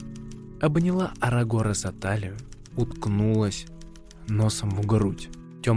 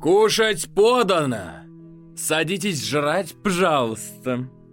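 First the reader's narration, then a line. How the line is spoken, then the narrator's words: Shouting. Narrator (Russian): прокричал Костян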